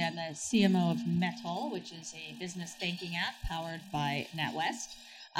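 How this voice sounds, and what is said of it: New York accent. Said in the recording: “I am from New York, as you might tell from my accent.”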